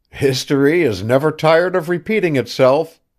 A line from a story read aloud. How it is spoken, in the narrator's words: he cried with a laugh